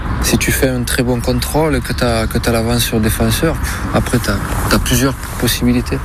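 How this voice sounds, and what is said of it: Southern French accent, quiet voice. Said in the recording (French): “l'accent ... Sud, ouais ... il parle pas bien fort”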